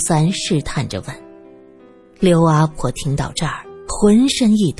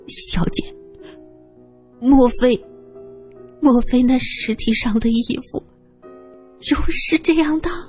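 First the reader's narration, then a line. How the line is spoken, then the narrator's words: Wailing sobs. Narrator (Chinese): 她实在是忍不住嚎啕大哭起来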